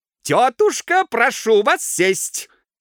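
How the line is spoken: Shout. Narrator (Russian): крикнул хозяин

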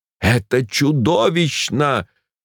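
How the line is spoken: Exclaimed. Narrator (Russian): воскликнул я

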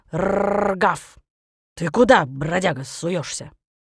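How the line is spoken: Growling dog. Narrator (Russian): лохматая дворняжка и зарычала

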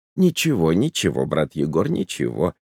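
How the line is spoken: Rapid mumbling. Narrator (Russian): забормотал скороговоркой отец Христофор

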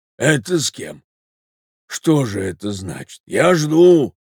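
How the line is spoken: Hoarse voice. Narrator (Russian): раздался сиплый голос

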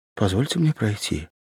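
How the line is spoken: Timid, frightened. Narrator (Russian): Юрьева испуганно взглянула на него и робко сказала

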